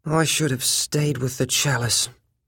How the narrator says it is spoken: he said miserably

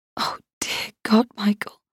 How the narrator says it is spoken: I whispered

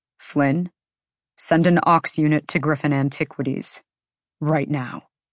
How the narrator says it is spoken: Rune quietly ordered

